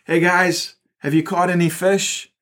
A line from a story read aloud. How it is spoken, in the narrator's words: He called out